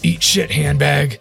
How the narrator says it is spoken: Info's gonna just shout

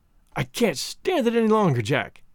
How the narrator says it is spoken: he cried

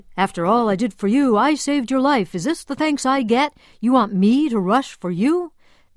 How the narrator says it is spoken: her doctor bellowed

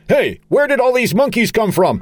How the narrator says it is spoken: Charlie, shouting

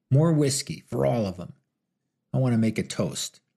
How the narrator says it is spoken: growled a narrow-faced man

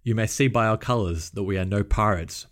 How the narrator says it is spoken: Maynard replied

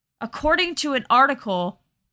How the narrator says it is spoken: Jose Perdomo shouted at Mark from across the front lobby

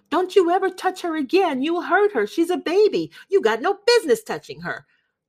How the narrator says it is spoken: she started screaming

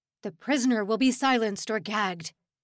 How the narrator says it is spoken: he barked

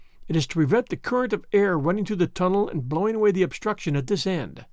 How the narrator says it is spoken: said the guide

